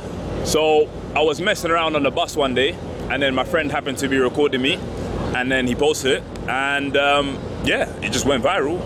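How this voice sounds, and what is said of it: West London English accent. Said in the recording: “Love the accent. You said you're from London? ... West London.”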